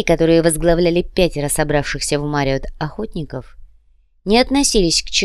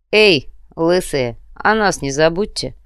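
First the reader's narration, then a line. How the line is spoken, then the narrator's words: Grumbled. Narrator (Russian): проворчал Петер Бруджа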